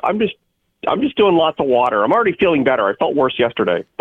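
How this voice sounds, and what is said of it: Hoarse voice from laryngitis. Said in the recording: “I have a little bit of laryngitis, as you can tell.”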